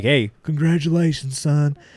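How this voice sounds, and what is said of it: Imitates another person's voice. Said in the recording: “great Bill Clinton impersonation”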